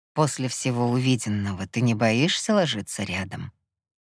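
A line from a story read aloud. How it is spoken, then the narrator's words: Barely audible murmur. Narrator (Russian): Едва слышно пробормотал он мне в волосы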